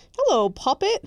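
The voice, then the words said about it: Weak put-on English accent. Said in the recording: “my terrible English accent that just does not accent? ... It's so bad, it's good. ... It's more inflection, really.”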